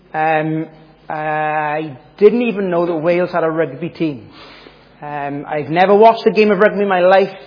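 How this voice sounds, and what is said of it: Welsh accent. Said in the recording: “As you might be able to tell from the accent, I am from Wales”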